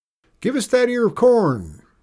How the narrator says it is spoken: called out one Texas soldier

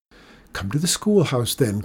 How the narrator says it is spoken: cried the teacher

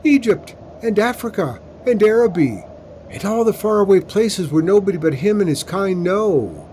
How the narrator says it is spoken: John Robert yelled into the wind

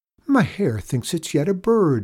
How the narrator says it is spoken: exclaimed Nanna

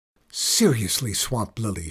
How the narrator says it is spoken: hissed

